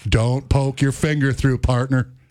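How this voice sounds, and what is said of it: Bad cowboy movie-star impression. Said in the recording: “That's the worst John Wayne impression I've ever heard in my life.”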